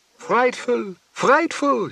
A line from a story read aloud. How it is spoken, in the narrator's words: she wails